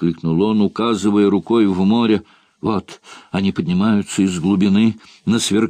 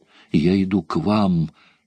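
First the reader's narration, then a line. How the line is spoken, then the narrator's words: Feverish mutter. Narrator (Russian): лихорадочно бормотал он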